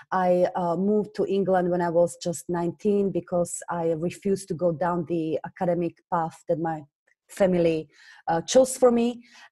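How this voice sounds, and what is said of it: Slovak accent in English. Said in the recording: “you hear from my accent, I originally come from Slovakia”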